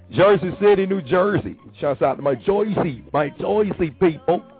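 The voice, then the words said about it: Bad put-on New Jersey accent. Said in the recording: “I know that's a bad impression”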